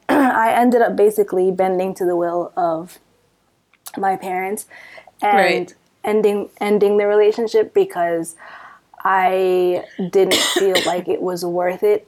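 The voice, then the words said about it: Hoarse, strained voice. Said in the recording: “I'm losing my voice.”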